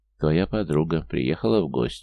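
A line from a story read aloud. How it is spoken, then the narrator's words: Amused snort. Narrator (Russian): хмыкнул Ирбис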